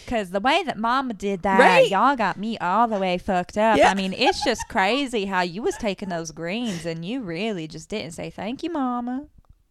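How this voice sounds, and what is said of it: Put-on Southern accent. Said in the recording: “Why are you so good at that? ... You know, I'm Southern. ... I did indeed grow up with a Southern accent”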